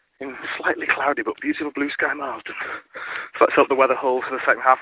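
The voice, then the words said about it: Slightly out of breath. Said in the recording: “I'm walking up a hill, that's why I'm slightly out of breath. And slightly unfit.”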